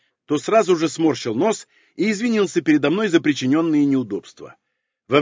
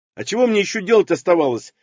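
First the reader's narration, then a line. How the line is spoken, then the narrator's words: Snapping back, inwardly pleased. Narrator (Russian): огрызнулся я, внутренне радуясь своей предусмотрительности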